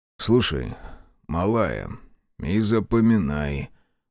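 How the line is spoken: Sighing again. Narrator (Russian): вздохнул он снова

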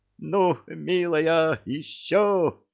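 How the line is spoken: Joyful delighted shout. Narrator (Russian): радостно кричала центральная, в восторге от такой поддержки

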